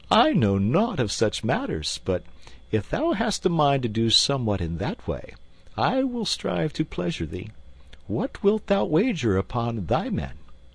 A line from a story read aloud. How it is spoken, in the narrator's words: Then the merry king laughed again, for he dearly loved goodly jest